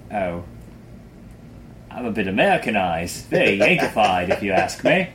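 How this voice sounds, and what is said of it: Bad Robin Leach impression. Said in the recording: “Sounds like a terrible Robin Leach impression.”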